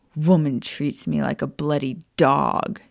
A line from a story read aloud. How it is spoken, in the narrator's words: Sirius growled